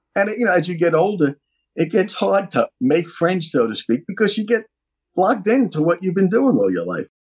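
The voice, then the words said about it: New York accent. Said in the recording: “they recognize the New York accent ... One thing that you never did do is lose your accent”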